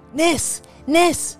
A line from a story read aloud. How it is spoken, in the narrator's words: they yell out